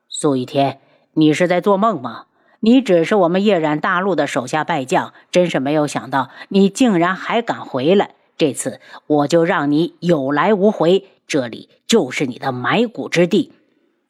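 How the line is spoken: Cold. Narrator (Chinese): 东方无双便冷声道

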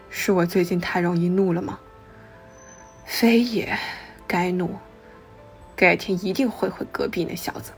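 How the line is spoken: Long sigh together. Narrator (Chinese): 又齐齐长叹一声

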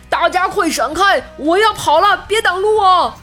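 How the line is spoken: Loud shout to crowd. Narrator (Chinese): 鸡哥 对围观群众大喊道

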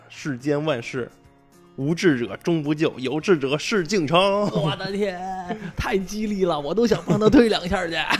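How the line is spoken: Shouting. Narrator (Chinese): 大喊

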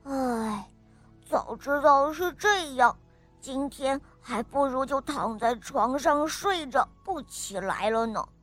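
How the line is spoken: Muttering. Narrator (Chinese): 马龙……他嘀咕着

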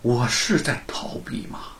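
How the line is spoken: Sighing. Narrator (Chinese): 叹了口气儿

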